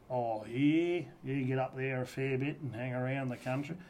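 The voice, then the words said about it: Put-on broad rural accent. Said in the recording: “where the fuck's this accent coming from? Because I'm looking at you going, this ain't you”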